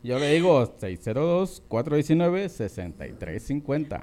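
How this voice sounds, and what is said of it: Deep radio announcer voice. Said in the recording (Spanish): “Te salió voz de locutor”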